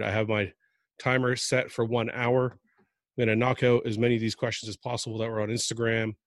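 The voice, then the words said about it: Voice changed from a cold. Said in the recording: “My voice is a little different because I have been sick for a few days. I'm just finally kind of getting over a cold.”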